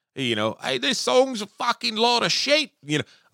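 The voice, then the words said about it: Badly done put-on accent. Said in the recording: “Oh, that was a terrible accent too, wasn't it?”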